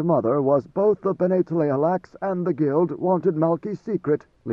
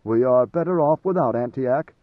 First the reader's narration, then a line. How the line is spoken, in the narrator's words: Maneo said